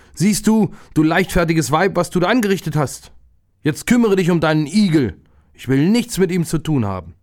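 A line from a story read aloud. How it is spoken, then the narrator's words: Herdsman's angry call. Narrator (German): Da ärgerte sich der Viehhirt und rief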